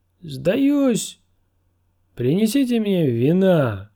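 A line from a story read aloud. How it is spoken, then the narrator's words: Shouted. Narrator (Russian): Сир Донтас крикнул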